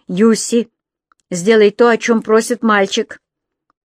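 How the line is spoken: Stern. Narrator (Russian): Хуберт строго сказал

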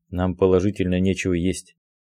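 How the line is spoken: Quiet, embarrassed. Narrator (Russian): тихо сказал

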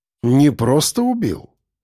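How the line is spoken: Calm. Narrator (Russian): спокойно ответил Крюков

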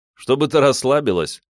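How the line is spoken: Laughing. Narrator (Russian): рассмеялся

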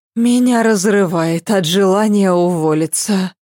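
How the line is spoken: Sigh. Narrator (Russian): вздохнула она

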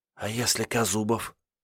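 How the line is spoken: Whispered question. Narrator (Russian): шепотом спросила Ольга

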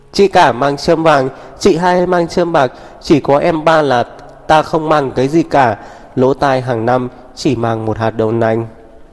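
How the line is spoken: Shouting. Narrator (Vietnamese): cô lại hét lên

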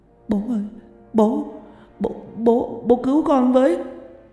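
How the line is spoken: Tearful child. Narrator (Vietnamese): Thằng Định mếu máo

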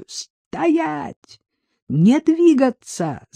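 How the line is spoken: Shouted. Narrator (Russian): закричал он

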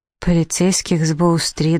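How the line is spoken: Dull, stunned repetition. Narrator (Russian): глухо повторила сраженная наповал Флёр

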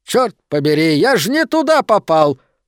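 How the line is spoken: Loud, seemingly upset exclamation. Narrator (Russian): восклицает Гуидо громко, кажется, будто он искренне огорчен этим недоразумением

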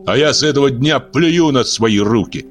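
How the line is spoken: Bitter shout. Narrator (Russian): с ожесточением выкрикнул Пануш

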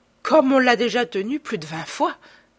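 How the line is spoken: Laughing. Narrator (French): dit Beautrelet en riant

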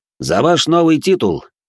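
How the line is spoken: Loud. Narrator (Russian): громко произнес он, да так, что на нас покосились остальные посетители трактира

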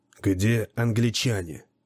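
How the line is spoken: Ominous whispered question. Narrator (Russian): зловещим шепотом спросил Гордон

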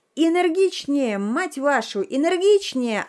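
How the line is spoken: Yelling. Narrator (Russian): орал режиссер

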